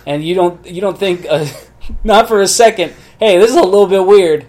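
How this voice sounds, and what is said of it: Usual voice. Nothing is said of it.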